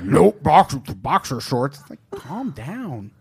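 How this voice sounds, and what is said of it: Angry imitation of another person. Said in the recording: “your Jeff May impression? ... That's a good Jeff May ... It doesn't sound like Jeff's happy about it. It sounds like he's still angry.”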